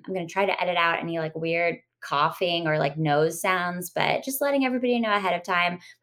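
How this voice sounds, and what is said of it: Sick, congested voice. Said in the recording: “I have been sick all week... my voice sounds funny... if my voice sounds weird”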